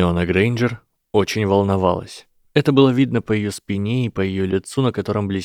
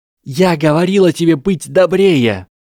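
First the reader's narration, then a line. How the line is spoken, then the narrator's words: Shouting. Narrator (Russian): крикнула Гермиона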